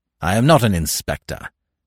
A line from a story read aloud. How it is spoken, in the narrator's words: snapped Smith